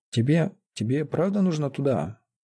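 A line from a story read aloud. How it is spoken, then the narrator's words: Very quiet, strangled. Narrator (Russian): Закончил вдруг он совсем тихо, сдавленно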